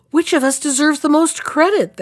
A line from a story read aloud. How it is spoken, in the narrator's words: they all cried at once